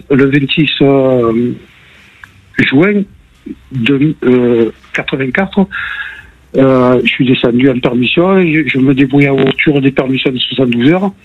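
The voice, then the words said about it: Marseille French accent. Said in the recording (French): “pourtant j'habite Marseille ... on avait entendu à l'accent”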